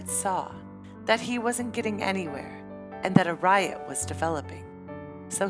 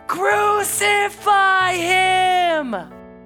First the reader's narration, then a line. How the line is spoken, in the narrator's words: the mob roared even louder